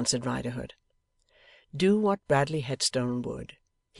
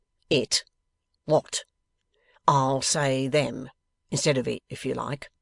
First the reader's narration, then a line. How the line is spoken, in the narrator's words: was the coolly growled reply